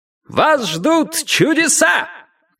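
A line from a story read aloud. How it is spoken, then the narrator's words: Shouting. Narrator (Russian): крикнул он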